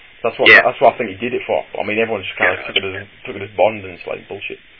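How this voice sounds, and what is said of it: UK accent, fast talker. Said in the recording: “You got the little accent thing going, but you just talk faster than he does... You're the Chris Tucker of the UK”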